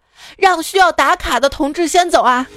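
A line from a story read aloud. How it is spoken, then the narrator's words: Shout. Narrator (Chinese): 不知道谁喊了一句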